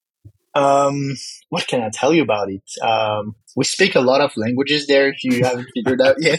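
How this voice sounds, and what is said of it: French accent. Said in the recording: “I have a French accent because that's also my first language”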